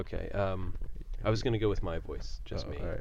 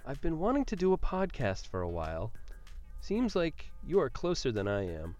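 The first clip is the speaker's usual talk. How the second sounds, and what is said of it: Raised, higher-pitched voice. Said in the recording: “pitch it up a couple octaves ... in a higher voice”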